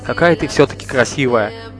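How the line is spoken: Breathless mutter. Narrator (Russian): пробормотал он, еле поспевая за ней

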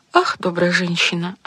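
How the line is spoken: Sighing. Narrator (Russian): ответила, вздохнув королева

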